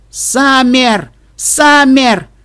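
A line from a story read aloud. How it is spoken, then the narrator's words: Repeated calling shouts. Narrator (Russian): несколько раз прокричал Флауэр в темноту коридора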